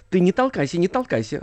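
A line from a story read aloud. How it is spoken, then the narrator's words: Angry hiss. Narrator (Russian): сердитое шипение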